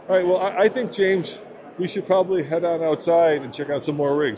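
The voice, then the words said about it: Strained, fading voice. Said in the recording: “I'm losing my voice because it's so loud in here ... if you hear a strain in my voice”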